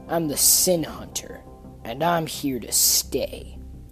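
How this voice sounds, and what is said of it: Menacing assassin character voice. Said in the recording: “in his best assassin voice”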